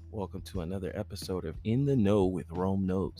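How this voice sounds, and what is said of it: Smooth radio DJ voice. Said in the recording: “my smooth DJ voice”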